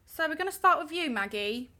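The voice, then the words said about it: Put-on British accent. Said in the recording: “I don't know why I've been breaking out into a British accent”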